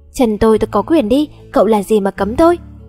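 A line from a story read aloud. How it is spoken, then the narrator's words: Annoyed, frowning snap. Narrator (Vietnamese): Tôi nhíu mày nhìn hắn, bực mình gắt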